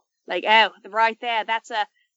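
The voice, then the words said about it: Poor put-on accent imitating someone. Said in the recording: “what is the Steve Irwin-esque way that we can tell? ... My accents are not good.”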